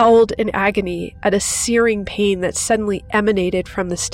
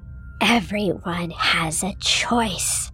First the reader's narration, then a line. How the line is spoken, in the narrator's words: hissed